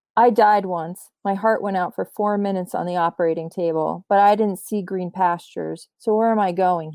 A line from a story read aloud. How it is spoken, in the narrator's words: he asked